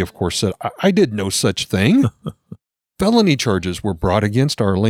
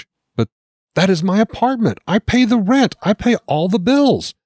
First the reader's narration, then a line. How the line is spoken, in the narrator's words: She pleaded with the judge